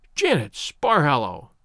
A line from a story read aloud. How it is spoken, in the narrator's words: she cried